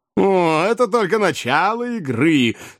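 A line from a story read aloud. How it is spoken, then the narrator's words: Laughing reply. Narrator (Russian): смеясь ответил мистер Уордль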